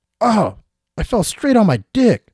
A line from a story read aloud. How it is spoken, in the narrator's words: shouted the man as he was writhing on the ground